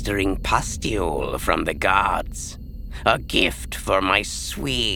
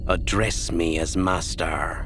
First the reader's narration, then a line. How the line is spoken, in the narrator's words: Ninyim said stiffly